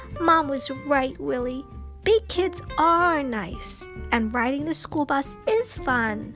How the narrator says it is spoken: whispered into his ear

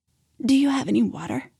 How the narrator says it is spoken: I croaked

